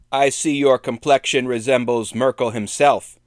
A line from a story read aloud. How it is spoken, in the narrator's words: Albrecht shouted